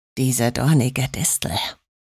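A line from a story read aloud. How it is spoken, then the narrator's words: Murmured. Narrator (German): murmelte er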